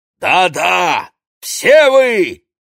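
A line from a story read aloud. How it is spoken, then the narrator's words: Barking. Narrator (Russian): рявкнул пришелец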